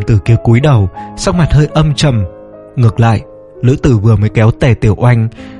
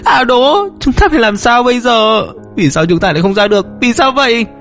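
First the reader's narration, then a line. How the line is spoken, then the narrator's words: Frantic wailing. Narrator (Vietnamese): Tề Tiểu Anh thất thần, điên cuồng gào khóc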